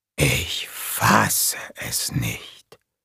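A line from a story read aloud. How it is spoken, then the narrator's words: Whisper. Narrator (German): wisperte Kurt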